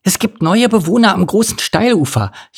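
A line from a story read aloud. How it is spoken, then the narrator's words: Excited gasping. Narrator (German): japste Fiona aufgeregt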